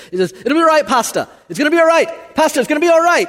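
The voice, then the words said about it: Poor put-on South African accent. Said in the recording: “this is my terrible South African accent”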